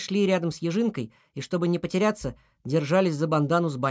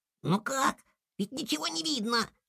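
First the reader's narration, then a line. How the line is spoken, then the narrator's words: Squeaky chorus of lemmings. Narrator (Russian): пропищали лемминги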